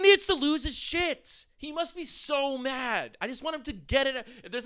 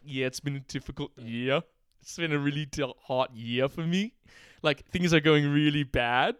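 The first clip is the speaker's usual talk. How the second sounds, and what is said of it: Imitates another person's voice. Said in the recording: “his impression of Ricardo”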